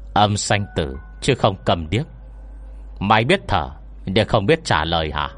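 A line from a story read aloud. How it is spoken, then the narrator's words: Shrill, cold, strangled voice. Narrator (Vietnamese): Giọng nói của bà ta như bị kẹt vào khe cửa, tràn ngập bén nhọn và lạnh lùng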